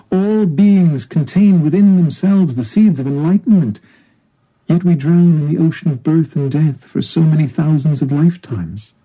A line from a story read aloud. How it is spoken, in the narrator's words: Siddhartha exclaimed out of deep compassion